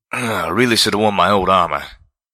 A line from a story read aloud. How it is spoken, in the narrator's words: Calamity grunted